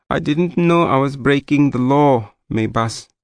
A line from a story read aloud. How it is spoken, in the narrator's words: Dlamini said in a trembling voice